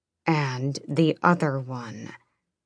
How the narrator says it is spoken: Rolf said through clenched teeth

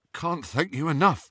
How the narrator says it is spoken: said Ron shakily

